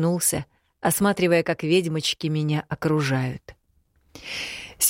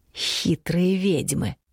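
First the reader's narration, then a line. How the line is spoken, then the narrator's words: Whisper. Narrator (Russian): прошептал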